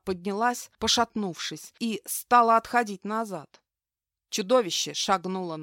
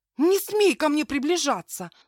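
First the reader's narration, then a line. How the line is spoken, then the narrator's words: Shouting. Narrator (Russian): закричала я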